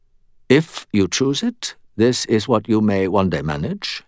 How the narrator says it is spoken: he said calmly

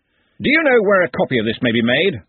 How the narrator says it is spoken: said Ridcully loudly

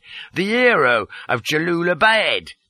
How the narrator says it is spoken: cried

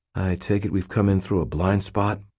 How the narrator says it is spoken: I asked quietly

